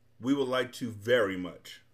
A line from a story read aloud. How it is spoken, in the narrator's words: barked Tok